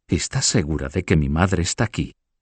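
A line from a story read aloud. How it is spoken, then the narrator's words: Whispered. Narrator (Spanish): susurró Juana Beatriz de Ixón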